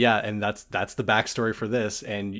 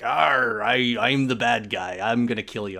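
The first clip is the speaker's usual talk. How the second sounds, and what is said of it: Pirate accent. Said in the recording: “I be having a pirate accent.”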